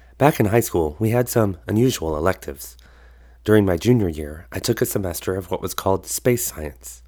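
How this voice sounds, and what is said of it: Lower, raspy voice. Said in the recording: “I'm getting over strep throat, so my voice is a little lower and raspier than usual”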